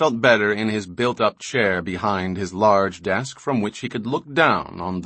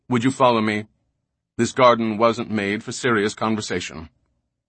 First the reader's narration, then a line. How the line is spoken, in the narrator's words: Indber said coldly